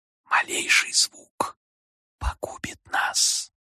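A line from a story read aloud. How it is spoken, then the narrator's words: Barely audible cupped whisper. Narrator (Russian): сложив руки трубкой, прошептал так тихо, что я едва понял его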